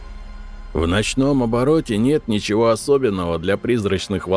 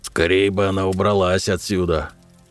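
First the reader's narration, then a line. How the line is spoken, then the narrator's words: Grumbling. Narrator (Russian): Ворчал я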